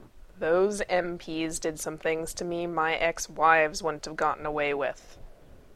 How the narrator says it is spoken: Gibbs growled at him

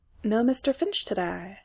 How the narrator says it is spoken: he murmured, an exact reproduction of the tone Reese customarily used to contact his colleague through compin and earbug

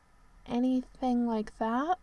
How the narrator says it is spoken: finished, rather feebly

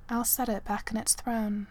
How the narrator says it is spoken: said quietly

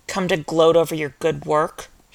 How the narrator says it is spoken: had spat

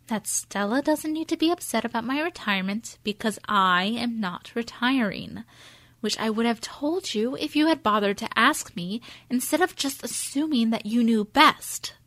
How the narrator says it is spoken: Joan says, as calmly as she can

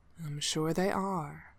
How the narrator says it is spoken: his radiancy said gently

